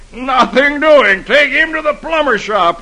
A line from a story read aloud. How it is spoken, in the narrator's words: the doctor sees Dagwood with a can in his head, he yells